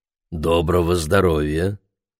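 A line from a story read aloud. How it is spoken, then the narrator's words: Soft low voice. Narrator (Russian): произнес он мягким, низким голосом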